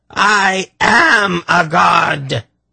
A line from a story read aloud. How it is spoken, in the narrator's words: Irvan shrieked